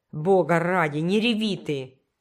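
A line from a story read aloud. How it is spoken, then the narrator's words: Growling. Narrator (Russian): прорычал Норман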